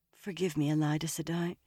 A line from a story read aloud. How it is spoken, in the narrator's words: she mumbled